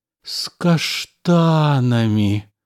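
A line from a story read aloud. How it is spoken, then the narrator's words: Moaning. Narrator (Russian): простонал, полузакрыв глаза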